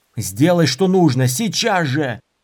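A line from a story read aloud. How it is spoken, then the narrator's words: Yelled. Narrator (Russian): заорал Дорин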